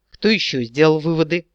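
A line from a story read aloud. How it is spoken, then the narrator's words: Gloomy mutter. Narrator (Russian): угрюмо пробурчал Эрин Рандир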